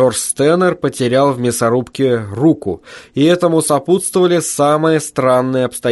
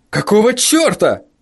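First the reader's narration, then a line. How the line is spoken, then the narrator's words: Yelling. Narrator (Russian): завопил он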